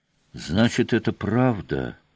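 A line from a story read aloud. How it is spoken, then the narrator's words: Stunned whisper. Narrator (Russian): в некоторой оторопи прошептал Олес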